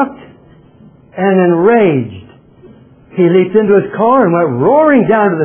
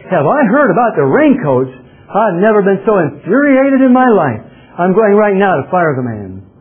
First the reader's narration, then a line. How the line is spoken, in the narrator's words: The owner yelled back